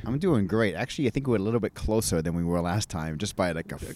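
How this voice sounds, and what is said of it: Maine accent. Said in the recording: “an amazing Maine accent.”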